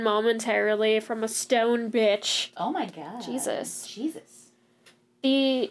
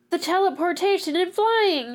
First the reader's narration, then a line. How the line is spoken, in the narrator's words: Shiraz cried